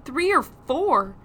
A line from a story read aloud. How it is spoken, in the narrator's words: Nathan exclaimed